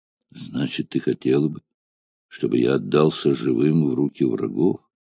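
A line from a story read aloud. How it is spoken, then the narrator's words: Quiet but angry. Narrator (Russian): произнес тихо, но гневным голосом вождь гладиаторов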